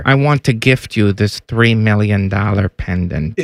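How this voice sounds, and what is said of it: Imitation sounding like Dr. Evil. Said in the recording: “my Coach K impersonation ... Why do you sound... ... Why does he sound like Dr. Evil?”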